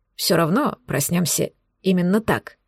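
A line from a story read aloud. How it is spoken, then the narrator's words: Whispering half to himself. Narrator (Russian): прошептал он то ли мне, то ли сам себе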